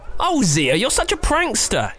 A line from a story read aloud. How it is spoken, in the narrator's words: yelled Immy